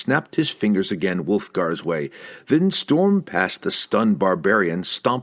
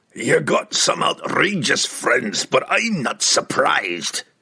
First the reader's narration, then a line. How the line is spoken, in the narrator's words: Puent roared at Brunner